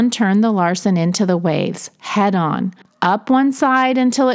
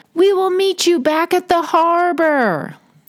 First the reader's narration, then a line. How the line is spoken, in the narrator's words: The father of the family yelled